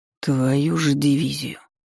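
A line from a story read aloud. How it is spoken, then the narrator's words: Quiet whisper. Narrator (Russian): тихо прошептал космический стражник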